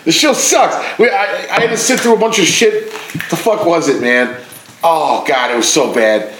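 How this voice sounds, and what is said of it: Usual voice. Nothing is said of it.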